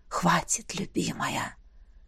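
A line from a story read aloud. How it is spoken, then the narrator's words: Hoarse, charming voice. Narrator (Russian): Неожиданно раздался хриплый, чарующий голос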